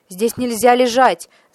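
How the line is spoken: Watchman shouting. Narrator (Russian): закричал сторож

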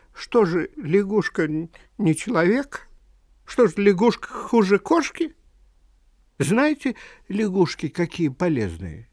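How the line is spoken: Tearful trembling voice. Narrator (Russian): на глаза Вани навернулись слезы, и Ваня сказал дрогнувшим голосом

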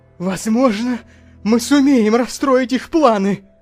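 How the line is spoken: Exclaimed. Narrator (Russian): воскликнул он

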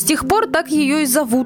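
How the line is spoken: Plain. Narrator (Russian): сказал Мэннерс

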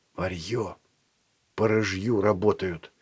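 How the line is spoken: Whispered. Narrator (Russian): шепнул Еве Филат

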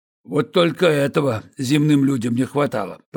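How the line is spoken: Grumbling. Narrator (Russian): проворчал Борис Ефимович

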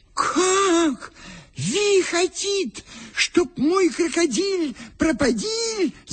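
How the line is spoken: Wailing. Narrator (Russian): завопил вбежавший опять хозяин

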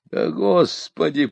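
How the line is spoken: Groaning. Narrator (Russian): простонал я

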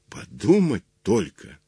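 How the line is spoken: Plain. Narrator (Russian): наконец сказал он

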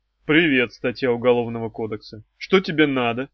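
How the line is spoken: Grumbled. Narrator (Russian): проворчал Хаврон

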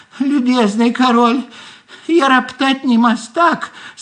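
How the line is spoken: Squeaky little voice. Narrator (Russian): снизу опять пропищал голосок

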